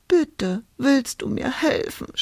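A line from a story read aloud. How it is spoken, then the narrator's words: Sobbing. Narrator (German): schluchzte Hulda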